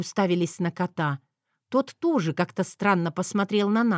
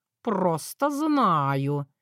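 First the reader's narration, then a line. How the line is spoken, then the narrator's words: Drawn out. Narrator (Russian): протянул он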